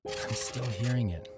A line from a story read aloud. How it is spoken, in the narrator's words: I whispered to the AD